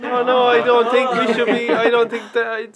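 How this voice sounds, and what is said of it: Put-on Latvian accent. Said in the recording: “he's putting on the Latvian accent there”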